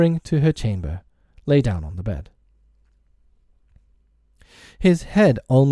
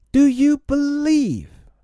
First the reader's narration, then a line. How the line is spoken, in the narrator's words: he cried